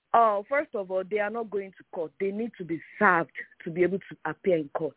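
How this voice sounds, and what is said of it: Strong accent. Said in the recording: “my accent is really bad”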